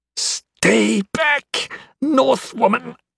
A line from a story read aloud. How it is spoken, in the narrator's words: Melkor hissed